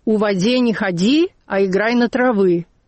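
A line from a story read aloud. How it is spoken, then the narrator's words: Strict instruction. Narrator (Russian): Лидочка ей строго наказывала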